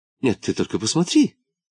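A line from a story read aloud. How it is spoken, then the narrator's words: Lady's exclamation. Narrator (Russian): воскликнула дама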